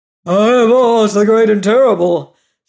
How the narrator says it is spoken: spake the beast in a voice that was one great roar

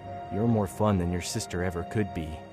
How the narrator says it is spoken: he whispered, his breath hot against my ear

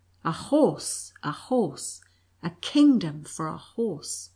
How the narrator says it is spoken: in wild despair he cried

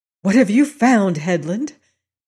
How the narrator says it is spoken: he asked excitedly

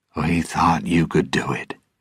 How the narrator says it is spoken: he said quietly

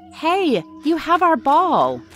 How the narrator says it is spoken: Jack shouting

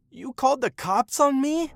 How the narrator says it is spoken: he screamed

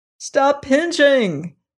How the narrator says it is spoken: cried the zebra

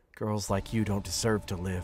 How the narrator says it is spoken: he muttered

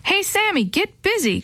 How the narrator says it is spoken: Chris yelled from across the lawn

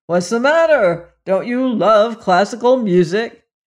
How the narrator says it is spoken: It called out reproachfully

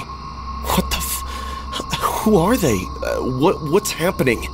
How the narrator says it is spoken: I managed to ask, my voice a whisper of its usual timbre

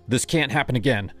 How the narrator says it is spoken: said, my voice sharper than I meant

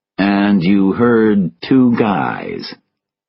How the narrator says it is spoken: Tobin said slowly

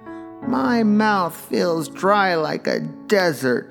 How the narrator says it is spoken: sobbed one child

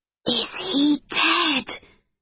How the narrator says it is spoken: whispered Amber

